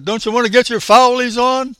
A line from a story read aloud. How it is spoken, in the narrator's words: shouted